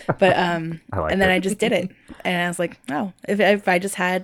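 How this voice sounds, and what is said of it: Usual voice. Nothing is said of it.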